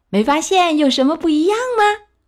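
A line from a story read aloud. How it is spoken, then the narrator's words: Calling out. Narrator (Chinese): 海绵宝宝叫了一声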